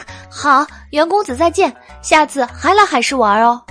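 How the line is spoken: Loud. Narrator (Chinese): 吴彩鱼……大声道

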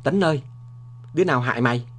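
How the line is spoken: Anguished cry. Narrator (Vietnamese): tướng Đinh Đức Thiện, em ruột của Lê Đức Thọ, kêu lên

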